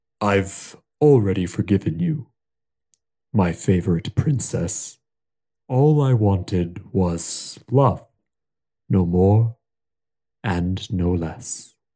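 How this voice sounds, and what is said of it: Deep character voice. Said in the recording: “Deep voice, go.”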